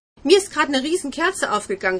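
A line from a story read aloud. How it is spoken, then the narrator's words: Enthusiastic call. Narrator (German): rief Nick begeistert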